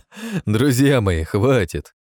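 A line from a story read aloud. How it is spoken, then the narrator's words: Sudden ringing laughter. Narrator (Russian): Внезапно заливисто рассмеялся Атон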